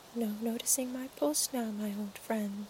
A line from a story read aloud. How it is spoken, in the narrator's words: she whispered